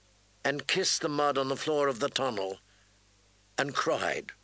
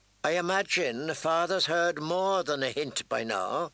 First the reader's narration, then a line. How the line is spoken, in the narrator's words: Tyrion said dryly